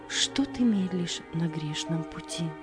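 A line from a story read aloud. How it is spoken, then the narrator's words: Quiet choral singing. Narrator (Russian): Хор тихо запел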